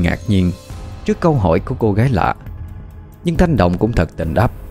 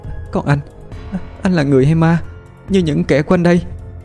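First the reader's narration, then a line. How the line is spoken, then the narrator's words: Frightened stammering, muffled. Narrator (Vietnamese): hoảng hốt lùi lại, đưa tay che ngang miệng như để kiềm chế sợ hãi trong lòng, rồi lắp bắp hỏi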